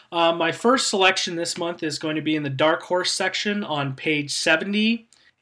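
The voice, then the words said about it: Slightly unclear, unwell-sounding voice. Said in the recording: “I'm feeling a little bit under the weather, so I apologize if my voice isn't as clear as possible.”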